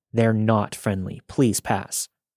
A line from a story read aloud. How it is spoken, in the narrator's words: Despite my internal panic, I firmly said